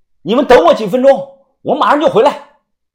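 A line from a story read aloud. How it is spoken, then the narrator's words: Shouting. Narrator (Chinese): 大声的喊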